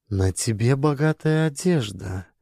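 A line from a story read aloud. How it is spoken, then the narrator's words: Soft remark. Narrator (Russian): мягко заметила Торгунна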